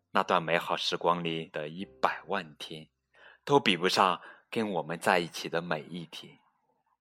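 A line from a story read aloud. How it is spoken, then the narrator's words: Laughing, soft. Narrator (Chinese): 他笑起来，小声地说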